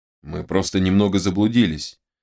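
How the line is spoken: Calm reply. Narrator (Russian): спокойно ответил Терехов

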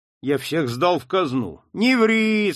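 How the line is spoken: Official's whine. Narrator (Russian): скулил чиновник

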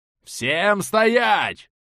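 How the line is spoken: Roaring. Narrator (Russian): взревел я

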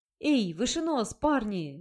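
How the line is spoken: Exclaimed. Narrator (Russian): воскликнул Золото

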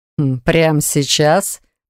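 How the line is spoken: Mocking drawl. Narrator (Russian): Насмешливо протянул Риводавир

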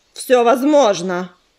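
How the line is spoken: Low growl. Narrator (Russian): Глухое рычание исторглось из груди Звездоцапа

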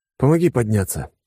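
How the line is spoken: Wheezed. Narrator (Russian): просипел я

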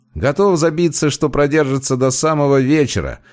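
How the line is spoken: Chuckling. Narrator (Russian): хохотнул тот, что справа

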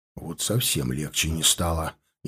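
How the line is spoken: Barely audible mutter. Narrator (Russian): еле слышно пробурчал Херди, стараясь, чтобы услышали только я и Рабыш

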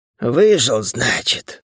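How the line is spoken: Angry mutter. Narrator (Russian): зло буркнул Сата

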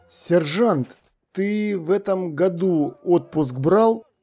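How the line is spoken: Forced out, strained. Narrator (Russian): выдавил наконец капитан Ваймс

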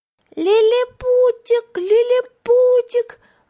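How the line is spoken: Joyful shout. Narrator (Russian): радостно кричал Вентворт

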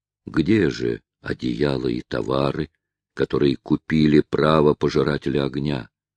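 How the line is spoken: Less impassive voice. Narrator (Russian): заговорил он уже не таким бесстрастным голосом, как прежде

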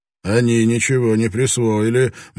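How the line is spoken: Grim. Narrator (Russian): мрачно заявил Блэкторн

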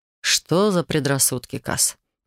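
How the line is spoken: Near purr. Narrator (Russian): Почти промурлыкал он

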